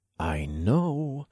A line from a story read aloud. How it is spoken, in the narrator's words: I muttered